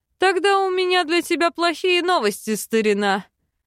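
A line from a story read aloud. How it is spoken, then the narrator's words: Laughing. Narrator (Russian): рассмеялся Бальтазар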